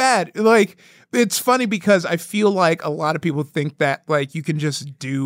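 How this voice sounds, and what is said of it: Usual voice. Nothing is said of it.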